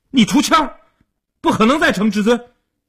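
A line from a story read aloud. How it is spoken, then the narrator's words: Loud clamoring. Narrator (Chinese): 一边嚷嚷着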